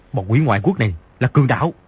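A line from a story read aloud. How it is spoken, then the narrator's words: Lowered voice. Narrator (Vietnamese): Di Tiểu Bảo hạ giọng nói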